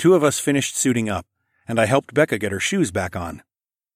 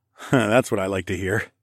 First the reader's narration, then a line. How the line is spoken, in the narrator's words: I chuckled